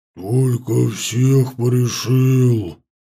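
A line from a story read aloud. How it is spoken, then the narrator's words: Booming troll voice. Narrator (Russian): прогудел тролль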